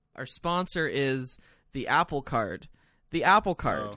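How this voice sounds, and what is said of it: Put-on professional announcer voice. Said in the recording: “putting on a professional voice”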